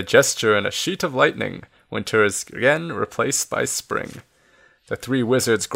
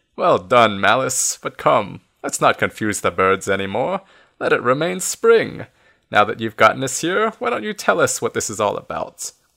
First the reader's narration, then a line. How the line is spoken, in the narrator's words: Still laughing